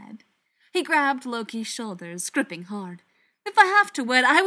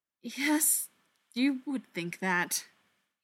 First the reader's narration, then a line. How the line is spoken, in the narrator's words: he said after a moment, his voice shaking